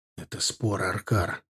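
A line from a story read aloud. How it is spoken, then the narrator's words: Whisper. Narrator (Russian): шепнул Ардан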